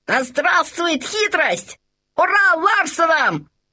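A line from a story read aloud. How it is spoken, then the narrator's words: Shout. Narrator (Russian): закричал Лабан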